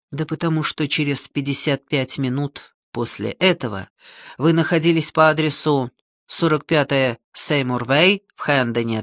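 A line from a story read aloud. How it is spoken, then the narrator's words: Plain. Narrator (Russian): ответил он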